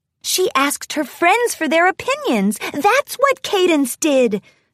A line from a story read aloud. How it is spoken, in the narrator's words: Twilight exclaimed